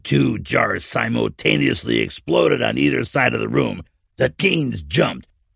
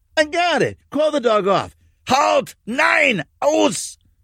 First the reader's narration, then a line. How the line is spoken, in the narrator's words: the old man shouted